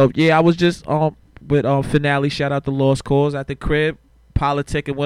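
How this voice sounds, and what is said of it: Usual voice. Nothing is said of it.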